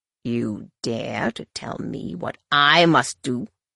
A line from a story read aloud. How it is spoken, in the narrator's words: Shimra snarled